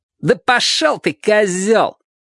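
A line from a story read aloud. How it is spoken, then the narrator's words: Shout. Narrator (Russian): крикнул один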